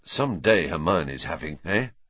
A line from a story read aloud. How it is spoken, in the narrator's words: Ron muttered to Harry, looking awed